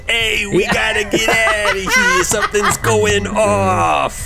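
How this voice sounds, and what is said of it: Bad put-on Brooklyn accent. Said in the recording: “whenever I get scared, my old accent comes out ... the worst Brooklyn accent I've heard in my life”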